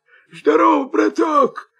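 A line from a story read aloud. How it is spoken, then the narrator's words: Hoarse wolf voice. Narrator (Russian): хрипит волк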